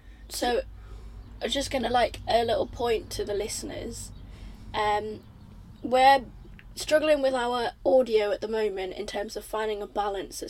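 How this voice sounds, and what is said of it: Hoarse, strained voice. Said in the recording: “I'm losing my voice quite badly today.”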